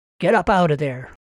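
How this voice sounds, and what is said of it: Gruff, commanding voice. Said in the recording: “in a gruff voice. ... She thought it might sound commanding.”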